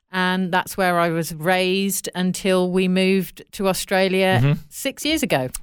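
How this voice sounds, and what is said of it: British Midlands English accent. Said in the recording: “you may be able to tell from my accent, I'm not Australian. I am British. I was born in the centre of England, in the Midlands, in a place called Coventry.”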